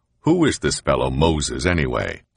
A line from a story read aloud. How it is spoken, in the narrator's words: The governor laughed